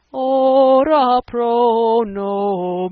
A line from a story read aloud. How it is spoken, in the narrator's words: wailed Raoul from the organ loft